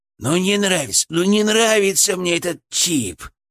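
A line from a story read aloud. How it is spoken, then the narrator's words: Grumbling inside head. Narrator (Russian): проворчал у меня в голове Фырк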